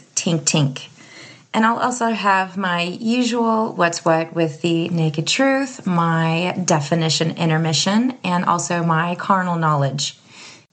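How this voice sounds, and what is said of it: Lower, slightly raspy voice. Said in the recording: “my voice is a little lower than what I'm used to and slightly raspy”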